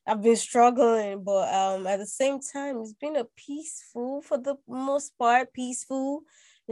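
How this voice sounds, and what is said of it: Sick-sounding voice. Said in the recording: “I've been sick. Uh, I don't know if people can tell from my voice.”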